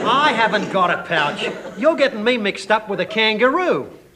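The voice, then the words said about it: Australian accent. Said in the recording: “Did you hear that accent? He's a foreigner. ... I'm Australian.”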